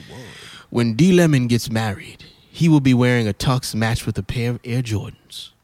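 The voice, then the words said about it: Radio announcer voice. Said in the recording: “I put my radio voice on”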